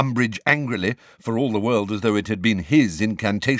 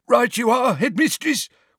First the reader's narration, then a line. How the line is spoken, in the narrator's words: wheezed Filch, who, as a squib